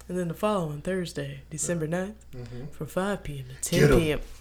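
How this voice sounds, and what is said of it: Radio host announcer voice. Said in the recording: “I'm doing my radio host voice.”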